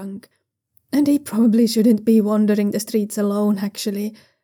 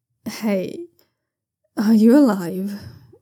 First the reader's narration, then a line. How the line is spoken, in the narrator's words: asks, his words slurring together a bit